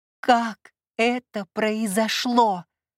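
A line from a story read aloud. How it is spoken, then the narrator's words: Barking snap. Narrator (Russian): рявкнула я на него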